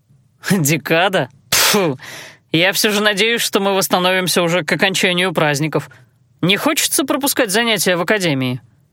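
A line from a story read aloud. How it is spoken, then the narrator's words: Snorting. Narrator (Russian): фыркнул Алан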